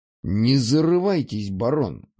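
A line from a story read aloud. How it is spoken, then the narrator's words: Man's snort. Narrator (Russian): хмыкнул мужчина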